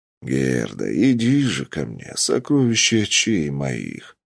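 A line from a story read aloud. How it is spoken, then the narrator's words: Strange drawling voice. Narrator (Russian): протянул я странным голосом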